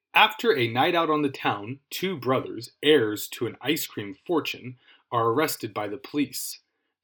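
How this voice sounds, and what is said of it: Announcer voice. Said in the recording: “in my super announcer voice, which is also known as my voice”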